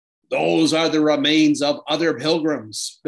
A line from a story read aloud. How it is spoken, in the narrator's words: bellowed the giant